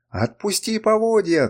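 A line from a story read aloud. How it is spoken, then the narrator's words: Shout. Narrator (Russian): крикнул я Гарольду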